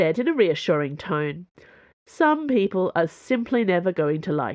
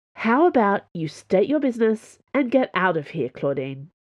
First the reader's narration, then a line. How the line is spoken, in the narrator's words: She asked, in the calm voice of a peacemaker